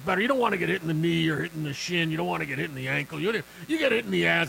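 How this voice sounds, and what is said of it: Imitates another person's voice. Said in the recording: “That was my Madden impression. That's a pretty good Madden impression.”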